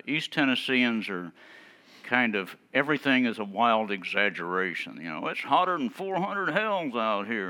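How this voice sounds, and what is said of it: East Tennessee and Maine accent blend. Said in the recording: “my accent is a kind of a melding between the East Tennessee hills and the Maine coast, and They think I sound like Hojo Hominy Crits or Jed Clampett, and down in East Tennessee, I sound like Percy Kilbride from Ma and Pa Kettle.”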